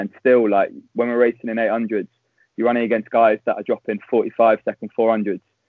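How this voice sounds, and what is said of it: Non-Scottish British accent. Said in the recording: “we can hear it in your accent. You're not Scottish, mate. We can hear.”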